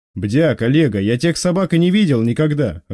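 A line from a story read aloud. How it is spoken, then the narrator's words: Snapping retort. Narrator (Russian): огрызнулся боцман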